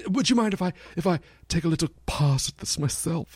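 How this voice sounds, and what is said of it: Put-on British accent. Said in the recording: “put a little bit of a British accent ... He had a British accent? ... He was English”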